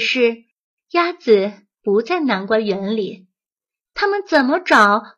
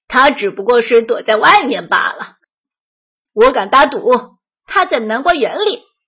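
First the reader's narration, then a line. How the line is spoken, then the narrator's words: Mocking. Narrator (Chinese): 猫带着嘲笑的口气说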